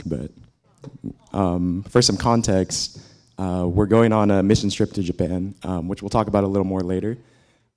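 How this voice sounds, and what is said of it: Hoarse, strained voice. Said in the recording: “my voice is a little shot because I've been sick”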